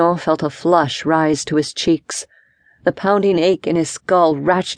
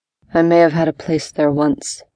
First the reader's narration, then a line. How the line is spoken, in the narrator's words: said in a flat tone